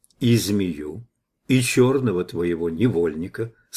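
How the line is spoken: Calm confirmation. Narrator (Russian): спокойно подтвердил я

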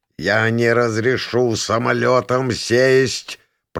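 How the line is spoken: Strained, through clenched teeth. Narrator (Russian): процедил Адамас, пытаясь взять себя в руки

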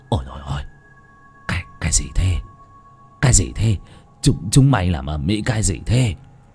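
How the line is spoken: Terrified trembling voice. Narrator (Vietnamese): Chánh toàn hãi quá, run run rẩy rẩy

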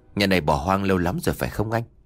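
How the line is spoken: Soft whisper. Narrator (Vietnamese): Hắn khẽ bảo nhỏ anh trai

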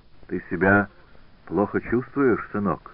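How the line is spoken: Plain question. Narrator (Russian): спросил он Асканио

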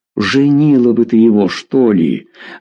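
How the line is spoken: Grumbling. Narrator (Russian): ворчал Федор Иванович

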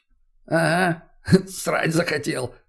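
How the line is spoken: Chuckling. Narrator (Russian): хохотнул тот

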